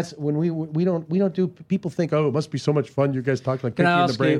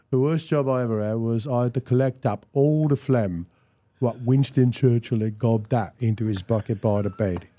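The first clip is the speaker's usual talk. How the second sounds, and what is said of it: Cockney comic character voice. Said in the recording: “when he speaks in a Cockney accent, I don't want to do the brain. I want to do Cockney back ... Our favorite way to fuck around is to do Derek and Clive”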